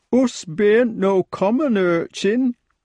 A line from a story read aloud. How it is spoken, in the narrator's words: quavered the poor creature, staying curled up as tight as ever